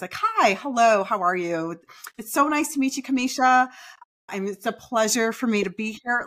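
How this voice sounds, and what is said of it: Higher-pitched, overly articulate polite voice. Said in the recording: “customer service voice ... our voices go up an octave. And we're very, very articulate with our words”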